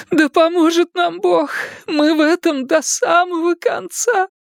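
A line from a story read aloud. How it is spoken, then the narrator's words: Sobbing. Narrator (Russian): Рыдание сорвалось с ее губ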